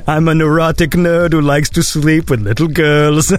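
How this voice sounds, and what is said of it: Imitates another person's voice. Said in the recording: “my Woody Allen impression.”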